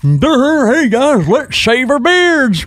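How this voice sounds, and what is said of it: Imitates another person's voice. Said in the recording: “That was a really good impression”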